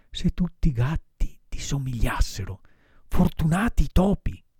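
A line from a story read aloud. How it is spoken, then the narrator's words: Moved whisper in ear. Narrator (Italian): Pinocchio, commosso anche lui, sussurrandogli negli orecchi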